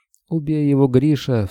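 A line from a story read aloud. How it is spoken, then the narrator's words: Distant sobbing woman. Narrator (Russian): всхлипнула где-то за машиной Дарья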